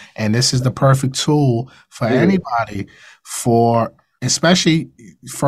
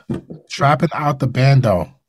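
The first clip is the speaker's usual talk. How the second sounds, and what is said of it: Imitates another person's voice. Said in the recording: “in my Rashad voice.”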